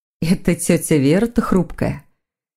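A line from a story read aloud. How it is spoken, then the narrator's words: Sighing. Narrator (Russian): Маргарита вздохнула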